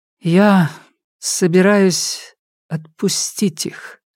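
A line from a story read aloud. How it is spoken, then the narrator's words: Trembling voice. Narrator (Russian): дрогнувшим голосом сказала Нелит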